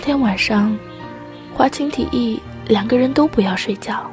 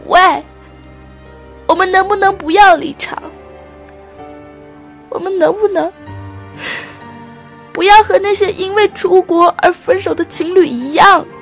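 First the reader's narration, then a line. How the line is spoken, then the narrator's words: Shouting. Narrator (Chinese): 对着罗琳喊着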